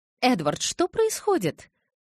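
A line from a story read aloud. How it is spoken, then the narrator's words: Indignant question. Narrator (Russian): возмущенно спросила Таня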